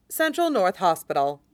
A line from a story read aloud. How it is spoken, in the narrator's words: Riza says calmly